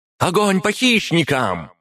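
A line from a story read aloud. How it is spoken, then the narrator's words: Shouted, female. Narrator (Russian): прокричала она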